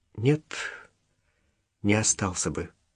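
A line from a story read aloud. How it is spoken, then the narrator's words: Quiet but firm. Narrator (Russian): тихо, но твердо сказала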